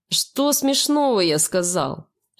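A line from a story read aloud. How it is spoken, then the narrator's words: Louder growl. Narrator (Russian): Рычит он еще громче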